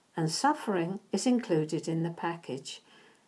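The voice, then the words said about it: Said quietly. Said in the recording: “I tried to, to say that quietly”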